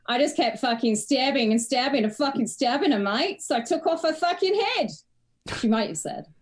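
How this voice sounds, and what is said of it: Put-on Australian Perth accent. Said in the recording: “It's a pretty good Australian accent you got going on there ... I'm doing an authentic Perth accent”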